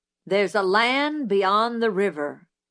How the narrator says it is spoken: Zebo cleared his throat and read in a voice like the rumble of distant artillery

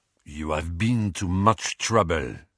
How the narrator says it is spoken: he said in a deep voice

